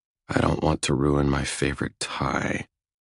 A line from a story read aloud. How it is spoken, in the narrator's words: I mutter